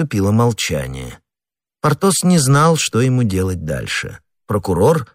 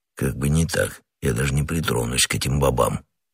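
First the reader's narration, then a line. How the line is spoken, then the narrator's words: Quiet grumble. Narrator (Russian): тихо проворчал Портос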